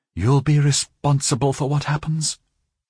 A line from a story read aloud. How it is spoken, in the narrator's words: she murmured